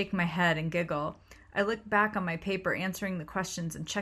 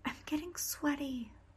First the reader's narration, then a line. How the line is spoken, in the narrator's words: Christy turned to me and whispered again